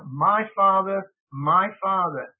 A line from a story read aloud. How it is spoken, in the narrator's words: Elisha cried out